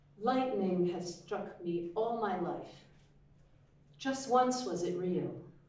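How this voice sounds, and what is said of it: American accent. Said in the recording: “I'm going to use my dulcet American tones.”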